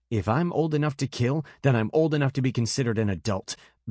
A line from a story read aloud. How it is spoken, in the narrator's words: Bast snapped